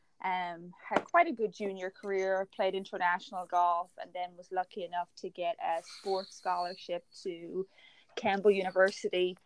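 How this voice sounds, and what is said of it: Irish accent. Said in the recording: “you can probably hear the accent, from Ireland”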